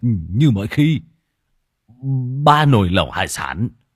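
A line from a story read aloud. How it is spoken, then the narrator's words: Startled stammering. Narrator (Vietnamese): Lão Thọt giật mình, lắp bắp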